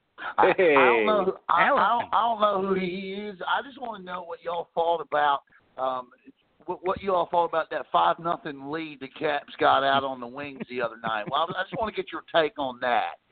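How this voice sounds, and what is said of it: Bad put-on Southern accent. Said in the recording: “worst Southern accent impression”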